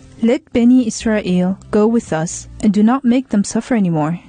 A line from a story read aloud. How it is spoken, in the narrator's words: he said firmly